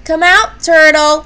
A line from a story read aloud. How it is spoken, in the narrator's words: shouted Beaver